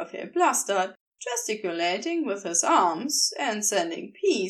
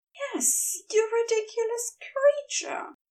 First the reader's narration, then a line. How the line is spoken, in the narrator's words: Aziraphale breathed against his lips